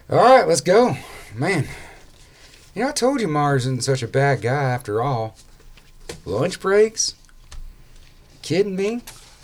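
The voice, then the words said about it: Character voice, like mouth full of dip. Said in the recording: “I can almost see like a wad of dip in your mouth as you're doing that voice.”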